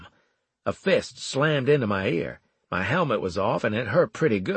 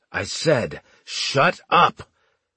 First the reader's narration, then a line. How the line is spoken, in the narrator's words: the veteran roared